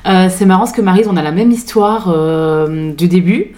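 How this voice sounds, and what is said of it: Slight Belgian French accent. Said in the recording (French): “je suis belge d'origine, je le dis parce que du coup, il y a un petit accent”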